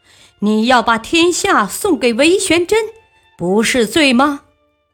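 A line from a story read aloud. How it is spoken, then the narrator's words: Stern scolding. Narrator (Chinese): 太后厉声斥道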